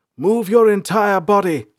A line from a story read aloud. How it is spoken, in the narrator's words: Salanth shouted